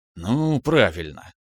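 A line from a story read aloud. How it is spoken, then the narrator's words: Sigh. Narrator (Russian): вздохнул Иванов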